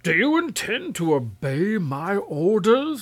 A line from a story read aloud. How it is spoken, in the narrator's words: roared the king